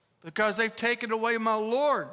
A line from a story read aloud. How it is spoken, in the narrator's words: she replied